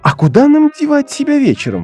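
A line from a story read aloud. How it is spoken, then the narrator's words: Exclaimed. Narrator (Russian): воскликнула Дейзи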